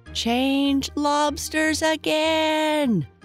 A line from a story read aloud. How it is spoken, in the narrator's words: yelled the Gryphon at the top of its voice